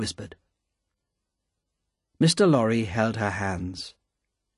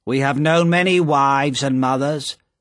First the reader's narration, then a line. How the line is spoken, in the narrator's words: said Madame Defarge